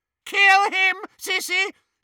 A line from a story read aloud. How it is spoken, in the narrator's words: shrieked Bellatrix